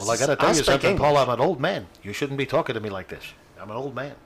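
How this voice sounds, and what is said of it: Old man Jackie Mason impression. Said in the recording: “The Jewish accent for everybody old ... It's a character voice. ... Jackie Mason.”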